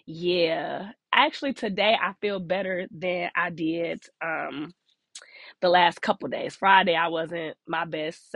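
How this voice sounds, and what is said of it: Sick, congested-sounding voice. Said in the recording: “I don't know if y'all could tell by my voice, but it's been a man down situation all week, y'all. The cold done got me.”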